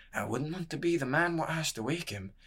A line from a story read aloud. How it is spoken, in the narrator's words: he said, adding under his breath